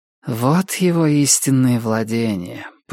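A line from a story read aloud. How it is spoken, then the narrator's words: Muttered. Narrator (Russian): пробормотала охотница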